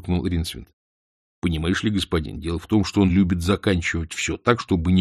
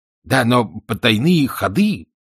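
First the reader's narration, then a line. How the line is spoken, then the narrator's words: Exclaimed. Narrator (Russian): воскликнул Ринсвинд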